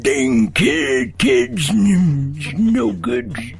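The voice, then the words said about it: Old man voice. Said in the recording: “the world's oldest man, who's 113 years old”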